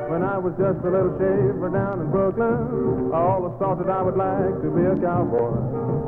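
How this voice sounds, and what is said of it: Southern drawl. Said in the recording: “I never heard a Brooklyn native say you all. Now, how come you talk with that southern drawl?”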